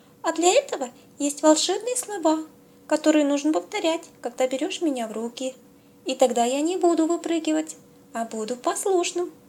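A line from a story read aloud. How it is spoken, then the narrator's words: Cheerful giggling soap. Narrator (Russian): весело сказала мыло и опять захихикала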